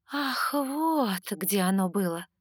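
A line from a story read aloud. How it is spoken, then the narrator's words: Drawling. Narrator (Russian): протянула я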